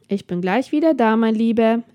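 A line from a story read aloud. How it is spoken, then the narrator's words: Calling out. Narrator (German): rief sie ihrem Mann zu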